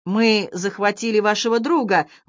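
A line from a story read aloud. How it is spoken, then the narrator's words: Woman shouting. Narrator (Russian): крикнула одна из женщин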